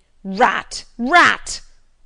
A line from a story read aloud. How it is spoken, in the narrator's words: and bellowed out aloud